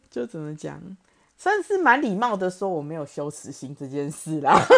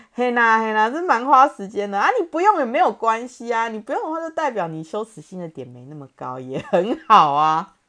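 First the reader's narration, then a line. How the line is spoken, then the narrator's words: Laughing. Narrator (Chinese): 笑出来，然后说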